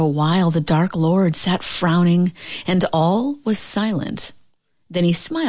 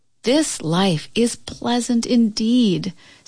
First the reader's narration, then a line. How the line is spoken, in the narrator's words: said Catkin sadly